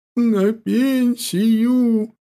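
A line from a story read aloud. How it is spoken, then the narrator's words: Bursting into sobs. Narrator (Russian): Никифоровна прорвала, она разрыдалась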